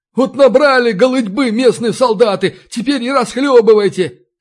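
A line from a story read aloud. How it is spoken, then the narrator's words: Shouted. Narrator (Russian): крикнула домоправительница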